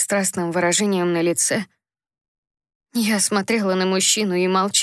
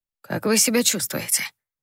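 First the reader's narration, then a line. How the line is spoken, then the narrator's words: Pleasant male voice. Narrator (Russian): Неожиданно поинтересовался кто-то приятным мужским голосом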